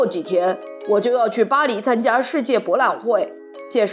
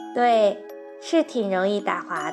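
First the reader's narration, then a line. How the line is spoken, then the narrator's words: Embarrassed quiet voice. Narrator (Chinese): 不好意思，小声地说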